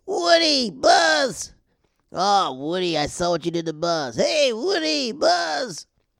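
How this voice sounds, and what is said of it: Excited Slinky character voice. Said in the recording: “my name's Slink ... he's always excited about everything ... when I do that voice”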